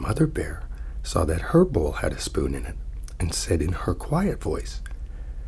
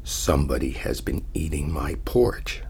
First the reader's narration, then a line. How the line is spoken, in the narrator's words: he said in a great big growly voice